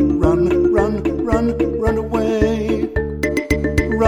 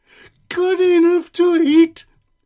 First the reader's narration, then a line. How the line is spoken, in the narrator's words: shrieked the gingerbread man